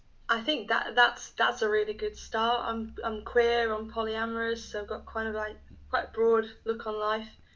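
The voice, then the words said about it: English Midlands accent. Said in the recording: “the accent, so where are you located?... I'm in the Midlands in England.”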